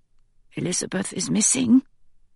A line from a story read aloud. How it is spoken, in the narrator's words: I whisper